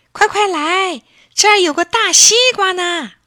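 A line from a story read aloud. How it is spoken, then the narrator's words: Shouting. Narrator (Chinese): 这一喊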